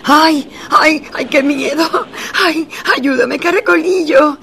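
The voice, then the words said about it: Frightened screaming. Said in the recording (Spanish): “¡Ay, por qué gritas!”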